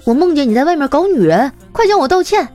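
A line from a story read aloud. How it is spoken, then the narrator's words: Angry wife. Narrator (Chinese): 妻子怒气冲冲的说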